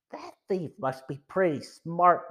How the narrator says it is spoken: murmured Joe

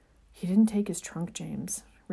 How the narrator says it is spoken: Remus faltered, his throat constricting around the terror he was feeling rising in his chest

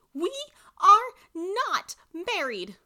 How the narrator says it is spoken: I screamed at him

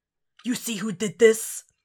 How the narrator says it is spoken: He rasps against the speaker

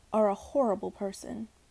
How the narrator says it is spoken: grumbled

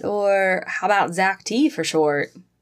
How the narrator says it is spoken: He laughed at her

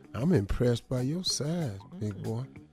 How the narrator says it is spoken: whispered in my ear

